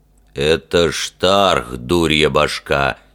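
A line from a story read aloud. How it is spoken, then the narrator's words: Condescending deep bass. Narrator (Russian): снисходительно пробасил привратник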